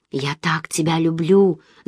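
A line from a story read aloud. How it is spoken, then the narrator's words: Whispering. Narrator (Russian): зашептал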